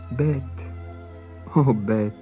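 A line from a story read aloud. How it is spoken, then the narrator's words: Moaning. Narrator (French): gémissait-elle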